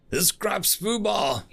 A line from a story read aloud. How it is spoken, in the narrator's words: he yelled, as his camera was shot out of his hand by a Republic sniper